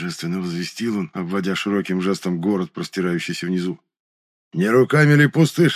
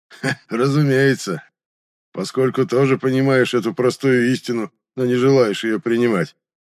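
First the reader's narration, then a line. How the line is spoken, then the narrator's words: Chuckling laugh. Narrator (Russian): хохотнул Ваэрис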